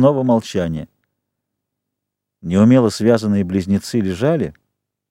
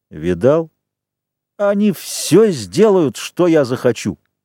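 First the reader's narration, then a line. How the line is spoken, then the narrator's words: Through gritted teeth. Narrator (Russian): процедил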